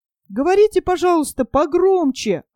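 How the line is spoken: Shouting. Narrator (Russian): опять закричал Нильс

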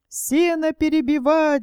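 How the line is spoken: Women shouting. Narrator (Russian): закричали бабы

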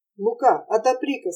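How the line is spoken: Plain. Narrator (Russian): сказал Петр караульному

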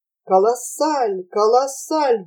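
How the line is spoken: Hoarse, hungover wheezing. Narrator (Russian): беспрерывно хрипел простудившийся мороженым похмелевший мистер Кук

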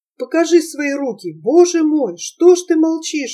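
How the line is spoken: Frightened exclamation. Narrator (Russian): испуганно воскликнула Олеся

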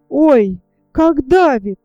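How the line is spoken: Wailing cry. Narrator (Russian): завопила штопальная игла

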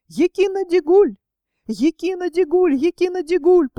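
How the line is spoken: Thin clear shout, tiny person. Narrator (Russian): самый смелый из них тоненьким, но отчетливым голоском прокричал

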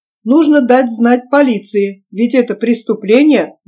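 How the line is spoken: Indignant exclamation. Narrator (Russian): воскликнул возмущенный Гильберт

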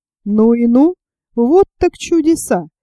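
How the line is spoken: Exclamation. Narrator (Russian): моряк воскликнул

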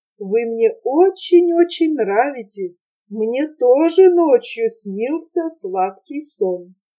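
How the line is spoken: Cooing softly. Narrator (Russian): голубиным голосом проворковала

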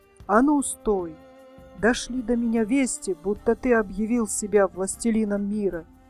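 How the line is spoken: Terrible shouting voice. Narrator (Russian): гризли-медведь и закричал страшным голосом

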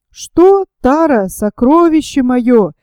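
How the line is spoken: Exclaimed, man. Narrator (Russian): воскликнул человек в плисовых штанах

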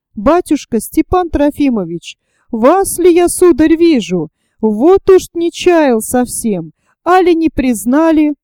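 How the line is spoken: Elderly man exclaiming. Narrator (Russian): Воскликнул один пожилой малый

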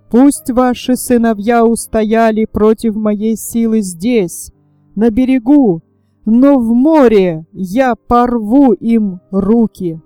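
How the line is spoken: Wild laugh, angry shout. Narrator (Russian): Когда Нептун увидел, что юноши выдержали натиск тяжелого вала, он дико засмеялся и злобно закричал женщинам

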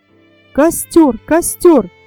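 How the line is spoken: Shouting. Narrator (Russian): закричал Фердинанд

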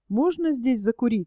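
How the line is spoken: Plain. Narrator (Russian): спросил я его

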